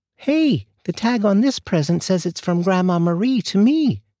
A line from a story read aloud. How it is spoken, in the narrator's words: David suddenly exclaimed